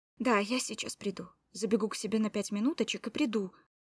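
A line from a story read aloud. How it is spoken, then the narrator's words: Hurried promise. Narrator (Russian): торопливо пообещал мой котенок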